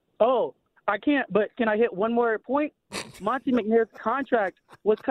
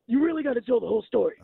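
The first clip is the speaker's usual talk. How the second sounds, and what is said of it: Imitates another person's voice. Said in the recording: “could you do a Doc Rivers impression? ... Okay, I'll try.”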